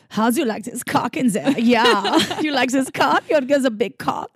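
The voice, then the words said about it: Put-on German accent. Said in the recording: “In German accent.”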